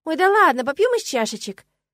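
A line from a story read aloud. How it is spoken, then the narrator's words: Shouting. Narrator (Russian): крикнула я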